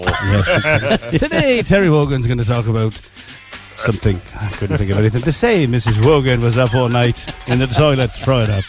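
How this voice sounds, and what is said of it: Imitates another person's voice. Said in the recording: “That's not a bad impression, is it? ... It's pretty good.”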